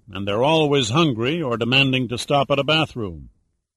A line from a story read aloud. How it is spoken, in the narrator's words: Pitt mused miserably